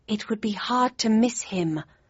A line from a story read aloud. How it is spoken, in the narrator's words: I breathed